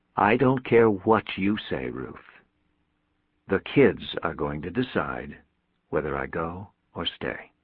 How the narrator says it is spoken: he said evenly

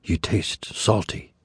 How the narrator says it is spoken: she whispered

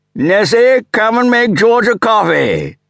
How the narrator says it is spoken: with the sergeant major's roar

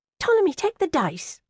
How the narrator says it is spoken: said sharply

